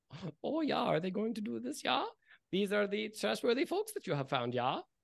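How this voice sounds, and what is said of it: Put-on character voice. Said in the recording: “This is my character voice.”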